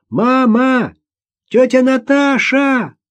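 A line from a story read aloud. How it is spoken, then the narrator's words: Shouting. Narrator (Russian): Маша закричала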